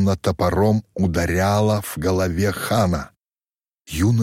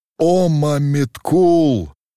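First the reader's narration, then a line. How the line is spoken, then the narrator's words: Wild howl. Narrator (Russian): диким голосом взвыл он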